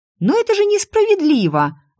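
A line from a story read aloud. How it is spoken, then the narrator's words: Exclaiming. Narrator (Russian): воскликнула я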